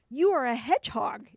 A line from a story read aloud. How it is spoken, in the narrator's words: exclaimed the king